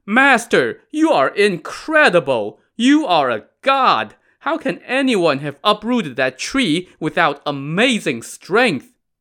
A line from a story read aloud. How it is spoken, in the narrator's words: Stunned at the sight of this mighty feat of strength, the gang cried